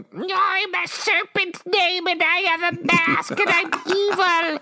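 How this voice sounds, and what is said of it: Cartoon villain character voice. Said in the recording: “my whole impression of Cobra Commander”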